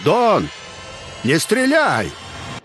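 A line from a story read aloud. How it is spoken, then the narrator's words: Shouting. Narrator (Russian): Крыс крикнул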